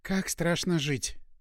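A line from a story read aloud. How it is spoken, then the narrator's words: Sighing. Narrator (Russian): только и вздохнула девушка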